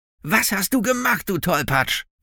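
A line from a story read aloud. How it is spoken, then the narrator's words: Angry shout. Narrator (German): rief wütend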